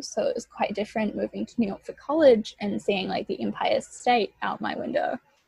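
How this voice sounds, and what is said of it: New Zealand accent. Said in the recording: “as you can probably tell from my accent, I am from New Zealand”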